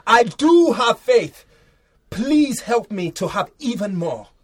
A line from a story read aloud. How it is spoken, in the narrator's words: Straight away the boy's father shouted